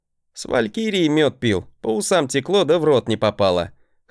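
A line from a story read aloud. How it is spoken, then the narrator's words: Chuckle. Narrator (Russian): хохотнул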